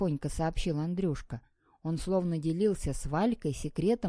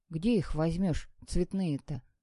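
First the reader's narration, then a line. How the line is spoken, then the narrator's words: Gloomy girl's voice. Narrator (Russian): мрачно произнесла коротко остриженная девчонка Ирка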